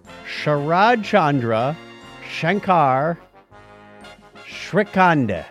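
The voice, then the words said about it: Pronounces a name slowly. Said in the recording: “I'm going to take this apart and say it slowly.”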